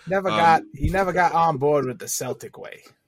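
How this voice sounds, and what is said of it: Imitates another person's voice. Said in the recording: “good Jackie impersonation ... That is actually very good ... I really thought I was listening to Hoop Collective for a second.”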